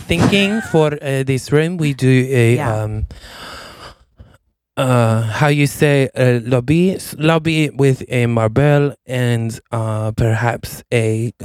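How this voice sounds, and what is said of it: Put-on French accent. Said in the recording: “the accent I actually lost... the French accent did go away, which is weird... every now and then it pops out”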